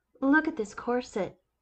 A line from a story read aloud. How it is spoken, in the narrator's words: Olivia exclaimed